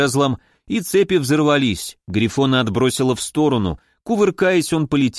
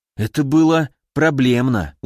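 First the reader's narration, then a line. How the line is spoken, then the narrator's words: Tired exhale. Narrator (Russian): устало выдохнул я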